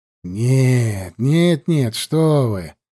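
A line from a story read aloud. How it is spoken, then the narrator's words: Exclaimed. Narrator (Russian): воскликнул распорядитель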